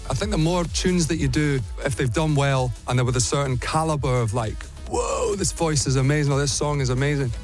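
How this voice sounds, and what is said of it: Mild Scottish accent. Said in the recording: “little Scottish accent there”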